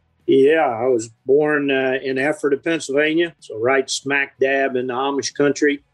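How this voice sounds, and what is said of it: Southern drawl. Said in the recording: “your Southern drawl”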